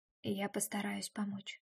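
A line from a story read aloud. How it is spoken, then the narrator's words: Whisper. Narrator (Russian): прошептал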